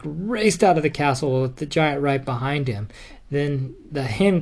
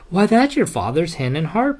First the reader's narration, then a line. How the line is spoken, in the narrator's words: she cried